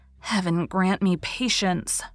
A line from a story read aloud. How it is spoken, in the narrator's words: she said under her breath